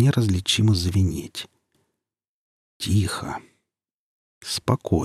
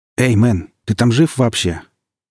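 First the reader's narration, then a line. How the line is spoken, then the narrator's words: Loud echoing paramedic's voice. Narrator (Russian): Голос фельдшера прилетел неожиданно громко, разбился скрежещущим эхом от кафельных стенок, ухнул в коридорах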